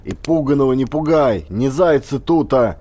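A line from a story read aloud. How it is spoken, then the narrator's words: Growled. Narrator (Russian): рыкнул Высотин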